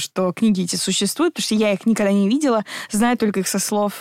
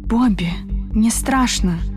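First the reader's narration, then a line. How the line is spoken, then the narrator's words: Whisper. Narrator (Russian): прошептала Мелани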